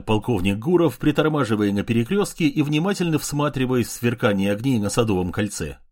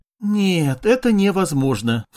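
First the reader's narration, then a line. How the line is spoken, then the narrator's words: Sigh. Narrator (Russian): вздохнула Мария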